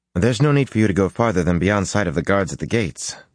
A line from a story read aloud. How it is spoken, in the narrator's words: Matt told Sitala hastily